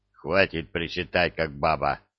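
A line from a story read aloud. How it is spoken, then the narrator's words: Gruff grunt. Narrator (Russian): буркнул Простаков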